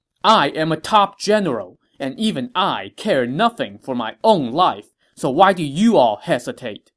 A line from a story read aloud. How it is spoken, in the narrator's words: said angrily